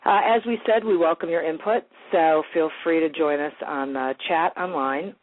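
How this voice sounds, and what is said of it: Congested voice, sounds like a cold. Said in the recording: “I have a cold,”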